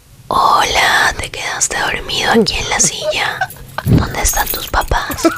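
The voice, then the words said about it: Whispered ASMR voice. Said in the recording (Spanish): “pon el de el de susurro.”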